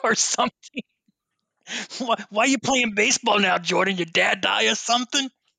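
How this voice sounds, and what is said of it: Put-on New York accent. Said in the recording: “New Yorker accent”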